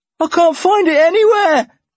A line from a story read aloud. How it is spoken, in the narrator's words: Alan shouted